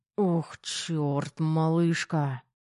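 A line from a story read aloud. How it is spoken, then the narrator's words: Growling. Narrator (Russian): Рычал Терех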